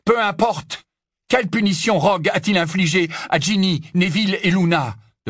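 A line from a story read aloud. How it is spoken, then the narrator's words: Urgent question. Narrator (French): demanda Harry d'un ton pressant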